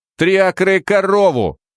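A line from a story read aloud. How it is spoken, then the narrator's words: Shouting. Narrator (Russian): выкрикнул Гарри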